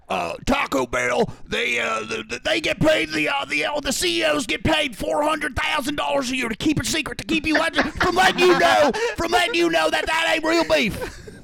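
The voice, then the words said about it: Imitates another person's voice, loosely. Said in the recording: “I'm going to do my Alex Jones voice ... That doesn't sound like Alex Jones, but... ... I get the essence. The essence is there.”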